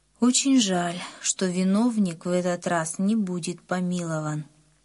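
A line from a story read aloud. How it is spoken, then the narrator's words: Sad. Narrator (Russian): Папа печально сказал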